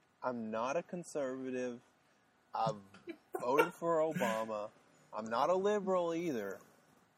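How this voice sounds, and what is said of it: Southern American accent. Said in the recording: “with the southern accent, I just I'm I'm working on losing it.”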